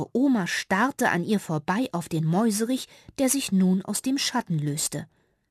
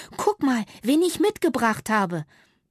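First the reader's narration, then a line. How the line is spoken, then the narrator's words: Squeaky. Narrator (German): piepste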